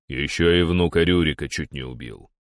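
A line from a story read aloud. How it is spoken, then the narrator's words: Deep bass aside. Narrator (Russian): пробасил в сторону Дир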